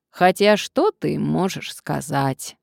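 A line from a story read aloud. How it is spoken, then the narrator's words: Grumbling. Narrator (Russian): ворчала уборщица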